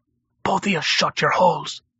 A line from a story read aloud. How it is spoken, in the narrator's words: Malk hissed